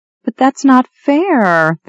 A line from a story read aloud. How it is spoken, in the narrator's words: the girl whined